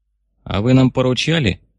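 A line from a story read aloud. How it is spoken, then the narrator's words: Snapping retort. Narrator (Russian): огрызнулся товарищ Михлис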